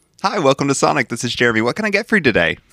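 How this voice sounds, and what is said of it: Fake cheery customer service voice. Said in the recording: “faking that customer service voice”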